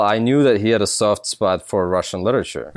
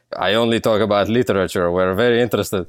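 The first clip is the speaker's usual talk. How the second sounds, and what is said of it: Thick fake Russian accent. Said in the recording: “I had to put on this thick Russian ... this super fake Russian accent”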